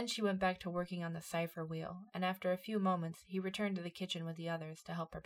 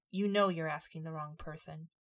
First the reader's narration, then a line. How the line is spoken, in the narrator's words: Icily, she said